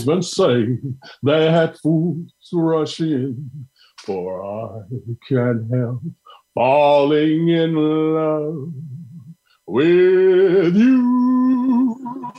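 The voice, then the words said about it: Imitates another person's singing voice. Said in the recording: “my Elvis impersonation”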